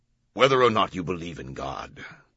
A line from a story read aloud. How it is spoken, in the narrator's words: the Camerlengo said, his voice deepening with deliberation